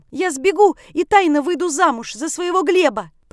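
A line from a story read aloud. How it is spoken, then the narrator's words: Shouted. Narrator (Russian): прокричала я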